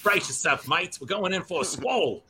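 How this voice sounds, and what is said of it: Put-on Australian accent. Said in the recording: “I want to hear an Australian accent in his voice.”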